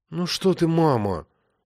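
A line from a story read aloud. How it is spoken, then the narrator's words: Glum reply. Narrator (Russian): уныло ответила тетя Валя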